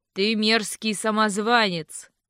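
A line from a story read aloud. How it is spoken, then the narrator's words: Rough interruption. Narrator (Russian): грубо перебил его голос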